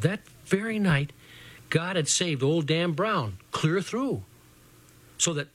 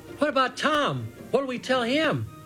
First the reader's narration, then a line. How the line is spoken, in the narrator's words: Little Jim called out to all of us then and said